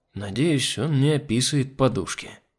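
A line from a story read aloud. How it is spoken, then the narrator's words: Sigh. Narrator (Russian): вздохнул я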